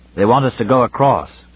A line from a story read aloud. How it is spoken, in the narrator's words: said Weston